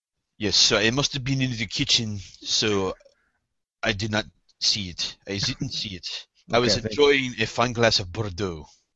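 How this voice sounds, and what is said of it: Put-on French accent. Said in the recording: “You need to say it in the French accent, though”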